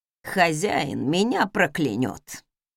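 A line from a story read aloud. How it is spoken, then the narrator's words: Sighing. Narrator (Russian): вздохнул он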